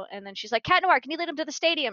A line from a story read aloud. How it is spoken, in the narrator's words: She shouted